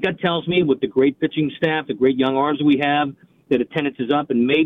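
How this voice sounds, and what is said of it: Boston-like accent, sounds like JFK. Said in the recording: “you sound like one of the Kennedys. You know, one of the political Kennedys ... Doesn't he sound kind of like JFK? ... It sounds almost like a Boston accent ... That is not a Baldwin accent”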